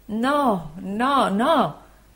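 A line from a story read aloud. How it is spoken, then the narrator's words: Anguished voice. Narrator (Italian): rispose il dottore con voce angosciata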